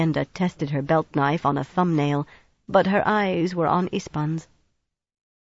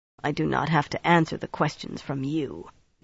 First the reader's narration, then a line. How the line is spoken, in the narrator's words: Ispahn said sullenly